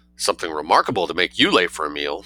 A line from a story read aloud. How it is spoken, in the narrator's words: said the Grafen